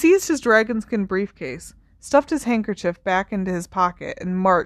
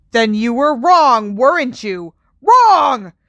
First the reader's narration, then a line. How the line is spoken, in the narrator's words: He bellowed the last word